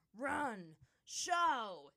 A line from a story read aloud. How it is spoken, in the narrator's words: he roared